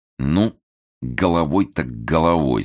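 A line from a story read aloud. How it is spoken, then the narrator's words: Ominous, through clenched teeth. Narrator (Russian): зловеще процедил Толстов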